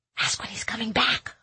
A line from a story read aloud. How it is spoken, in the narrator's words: I whispered